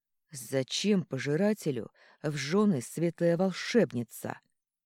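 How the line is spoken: Hissing, losing restraint. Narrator (Russian): не сдержавшись, зашипел он

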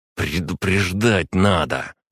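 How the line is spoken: Hissed. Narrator (Russian): Прошипел он

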